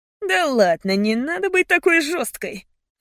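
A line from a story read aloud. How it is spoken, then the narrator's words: Laughing. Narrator (Russian): Он засмеялся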